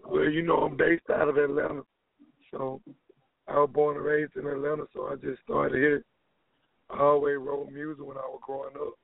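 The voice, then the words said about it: Hoarse, worn-out voice. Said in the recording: “excuse my voice, man. I had a couple shows, my voice gone.”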